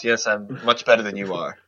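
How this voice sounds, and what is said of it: Posh, proper New England accent. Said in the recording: “posh accent ... New England ... He's not quite British, but he's very erudite. Speaks like that. ... Very proper ... like so like proper ... it's almost British”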